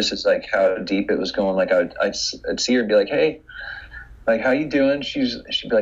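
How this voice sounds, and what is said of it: Usual voice. Nothing is said of it.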